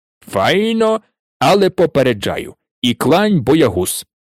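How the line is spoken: Plain. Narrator (Ukrainian): сказав Гегріт

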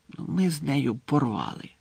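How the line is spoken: Whisper without moving lips. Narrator (Ukrainian): прошепотів він Гаррі, не ворушачи губами

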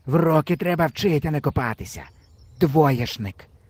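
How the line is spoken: Old man grumbling. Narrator (Ukrainian): буркнув дід

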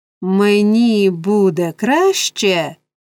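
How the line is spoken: Exclaimed. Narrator (Ukrainian): вигукнув Ной

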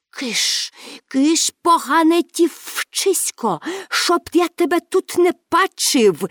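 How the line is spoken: Hiss. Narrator (Ukrainian): засичав він

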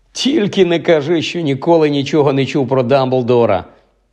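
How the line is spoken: Laughing. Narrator (Ukrainian): засміявся Рон

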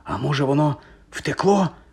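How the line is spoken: Whispered. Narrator (Ukrainian): прошепотів Гаррі

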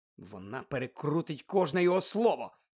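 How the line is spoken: Whispered. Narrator (Ukrainian): прошепотів Гаррі

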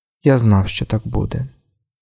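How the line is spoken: Quiet. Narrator (Ukrainian): тихо мовив він

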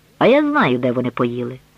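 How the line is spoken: Plain. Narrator (Ukrainian): сказала вона

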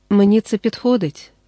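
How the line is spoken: Calm daughter replying. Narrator (Ukrainian): спокійно відповіла дочка

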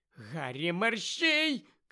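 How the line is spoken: Shouted from within crowd. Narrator (Ukrainian): крикнула Герміона десь зсередини юрби

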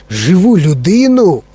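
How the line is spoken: Exclaimed. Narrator (Ukrainian): вигукнув містер Вонка

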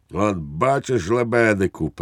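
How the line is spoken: Triumphant exclamation. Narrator (Ukrainian): переможно вигукнув підпоручник Дуб

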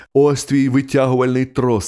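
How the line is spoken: Plain. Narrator (Ukrainian): сказав я

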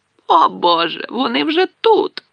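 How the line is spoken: Aunt exclaiming. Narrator (Ukrainian): вигукнула тітка Петунія

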